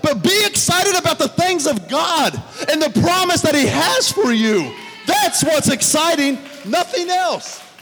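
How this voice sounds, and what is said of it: Yelling. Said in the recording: “sorry I'm yelling.”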